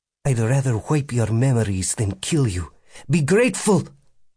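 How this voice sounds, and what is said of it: Russian accent. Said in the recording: “A Russian accent was flaring up.”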